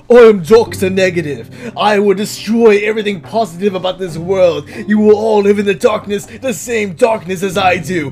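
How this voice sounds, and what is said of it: Weak put-on British villain accent. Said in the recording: “that's not a hard British accent, but I mean, that's the best I can do right now”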